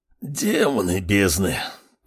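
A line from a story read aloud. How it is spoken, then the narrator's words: Hissed. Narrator (Russian): прошипел Радгаз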